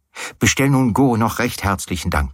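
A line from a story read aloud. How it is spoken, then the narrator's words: Plain. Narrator (German): sagte ich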